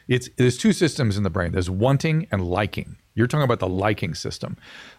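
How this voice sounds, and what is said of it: Smooth radio-style voice. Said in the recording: “You have a radio voice.”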